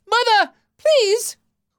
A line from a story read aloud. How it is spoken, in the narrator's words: Little Raider cried